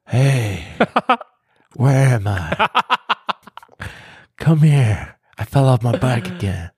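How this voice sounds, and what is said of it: Imitates another person's voice. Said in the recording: “do your Joe Biden accent”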